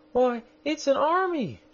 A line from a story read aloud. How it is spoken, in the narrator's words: She exclaimed